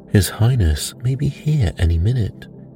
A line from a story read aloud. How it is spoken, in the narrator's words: said